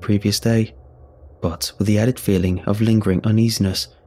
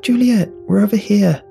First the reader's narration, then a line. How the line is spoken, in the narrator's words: Emily, Lewis, and Mathis excitedly shout